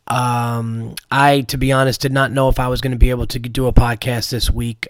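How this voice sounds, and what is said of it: Hoarse, raspy voice from illness. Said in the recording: “As you could hear in my voice, I'm sick. My throat is a little, whatever you want to call it, hoarse, raspy.”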